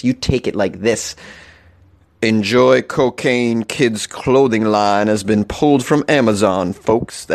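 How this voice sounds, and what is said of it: Put-on deep manly voice. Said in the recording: “For this segment, I'm going to do a manly voice.”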